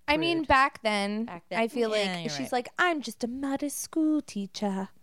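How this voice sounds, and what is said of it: Put-on British accent. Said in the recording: “that's about her British accent. Good job.”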